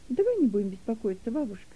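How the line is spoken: Almost cheerful. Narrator (Russian): сказала Нета почти весело

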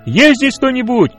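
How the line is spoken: Loud shout. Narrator (Russian): Он громко крикнул

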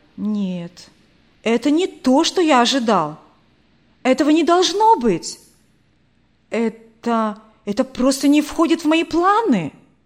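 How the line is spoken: Irritated exclamation. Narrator (Russian): раздраженно воскликнул Александр

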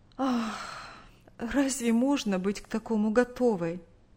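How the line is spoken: Sighing reply, mother. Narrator (Russian): Вздохнув, ответила мать

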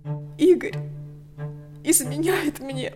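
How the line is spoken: Strained, barely forced out. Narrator (Russian): Еле выдавила из себя Лика

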